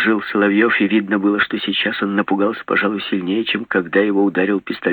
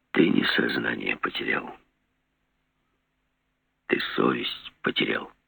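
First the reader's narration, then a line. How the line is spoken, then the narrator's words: Quiet, despairing not angry. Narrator (Russian): сказал все так же тихо Жеглов, и в голосе его я услышал не злобу, а отчаяние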